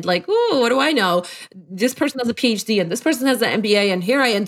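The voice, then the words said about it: Polish accent in English. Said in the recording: “a college dropout from Poland with an accent”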